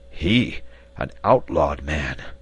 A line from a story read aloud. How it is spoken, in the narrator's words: The reporter evidently knew this name, for it had a wonderful effect upon him, and he answered in a hoarse voice